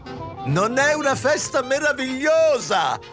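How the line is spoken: Imposing woman shouting. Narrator (Italian): gridò l'imponente consorte di un fabbricante d'armi renano

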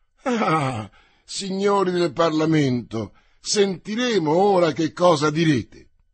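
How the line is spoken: Young king exclaiming. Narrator (Italian): persino il giovane re, nell'udire la notizia, aveva esclamato

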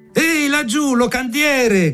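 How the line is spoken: Many voices shouting. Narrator (Italian): gridarono da tutte le tavole

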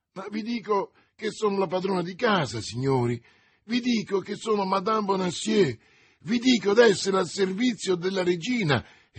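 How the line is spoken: Distressed woman exclaiming. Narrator (Italian): esclamava la disgraziata donna

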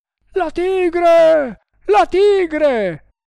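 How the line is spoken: Soldiers screaming while fleeing. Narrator (Italian): urlarono i sipai, fuggendo in tutte le direzioni

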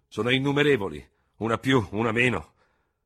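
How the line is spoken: Thundering. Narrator (Italian): tuonò il generale Ferraud

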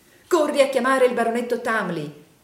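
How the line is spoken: Threatening exclamation. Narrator (Italian): esclamò il signor Wititterly

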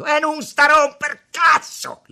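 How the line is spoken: Shouted. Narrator (Italian): le gridò Tommaso

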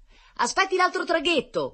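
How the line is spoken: Shout. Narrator (Italian): gridò un marinaio

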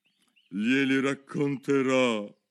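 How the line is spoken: Cavernous, hollow voice. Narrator (Italian): disse la Cleopatra col guscio in tono cavernoso

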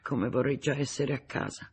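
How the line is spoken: Sighing murmur. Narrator (Italian): Nemeshek trasse un sospiro e mormorò

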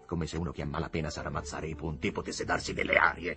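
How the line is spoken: Growled. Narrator (Italian): ringhiò il signor Higginbotham

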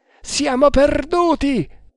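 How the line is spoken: Exclaimed. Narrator (Italian): esclamò Kammamuri

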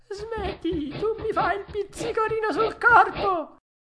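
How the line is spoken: Small voice laughing. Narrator (Italian): la solita vocina che gli disse ridendo

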